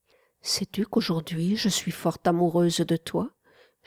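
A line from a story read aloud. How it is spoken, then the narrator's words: Whispering. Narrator (French): chuchota-t-elle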